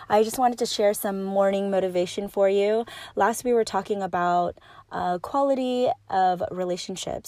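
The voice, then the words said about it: Slightly raspy voice. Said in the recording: “my voice is a little raspy, still getting over this cough and cold”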